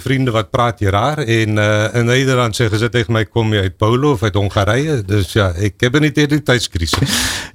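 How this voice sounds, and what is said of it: Slight South African accent in Dutch. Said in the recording (Dutch): “daar hoor ik een klein accentje. Een Zuid-Afrikaanse spirit”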